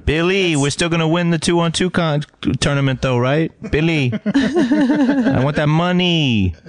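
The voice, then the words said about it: Imitates another person's voice, poorly. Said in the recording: “the worst Rosie Perez impression in history”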